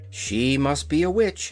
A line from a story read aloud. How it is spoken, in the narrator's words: exclaimed the girl